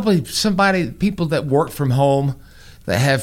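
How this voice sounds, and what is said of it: Usual voice. Nothing is said of it.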